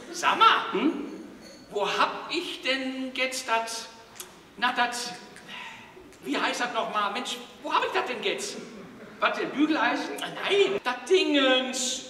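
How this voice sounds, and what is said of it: Old grandma voice, Ruhr dialect. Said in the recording (German): “die typische Oma aus dem Ruhrpott ... Ruhrpott-Dialekt”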